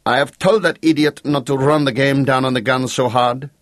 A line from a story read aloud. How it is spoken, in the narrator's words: snapped the Count petulantly